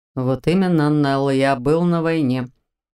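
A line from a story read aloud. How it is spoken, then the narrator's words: Growl in ear. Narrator (Russian): прорычал он мне на ухо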